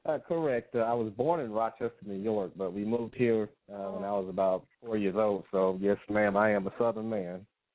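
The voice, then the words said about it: Slight Southern twang. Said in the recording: “I hear that little twang in your voice, too.”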